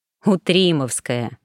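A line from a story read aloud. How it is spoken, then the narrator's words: Snort. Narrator (Russian): хмыкнул Гордей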